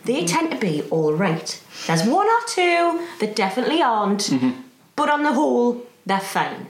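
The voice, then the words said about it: Geordie accent. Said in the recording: “I'm very much stuck with this accent. Can't do other ones, never have... other Geordie actors”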